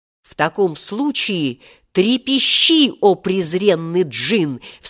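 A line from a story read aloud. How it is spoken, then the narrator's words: Most fearsome shout. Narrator (Russian): вскричал Волька самым страшным голосом, каким только мог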